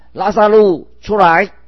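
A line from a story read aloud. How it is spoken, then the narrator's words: Loud calling out. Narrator (Chinese): 大声呼叫说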